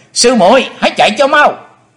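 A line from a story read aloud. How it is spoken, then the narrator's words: Joyful loud shout. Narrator (Vietnamese): U Linh công tử hoan hỷ hét lớn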